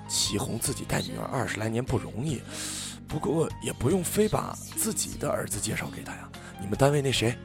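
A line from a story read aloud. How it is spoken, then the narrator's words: Muttering. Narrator (Chinese): 她还在跟我爸嘀咕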